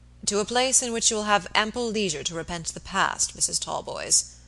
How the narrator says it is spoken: Robert answered gravely

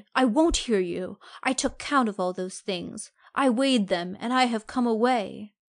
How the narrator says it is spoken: I cried

